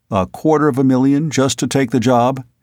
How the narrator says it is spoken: he asked

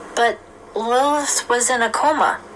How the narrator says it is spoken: she exclaimed

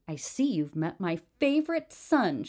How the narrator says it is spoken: she exclaimed

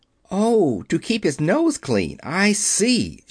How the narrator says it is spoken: she exclaimed

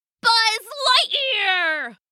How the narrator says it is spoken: he yelled

